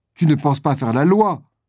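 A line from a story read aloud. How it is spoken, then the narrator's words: Shouted in disagreement. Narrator (French): s'écrie Doniphan, qui décidément n'est pas d'accord avec Brian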